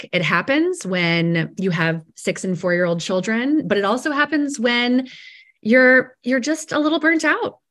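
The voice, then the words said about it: Sick-sounding voice. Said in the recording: “as you can hear in my voice, I'm a little bit sick.”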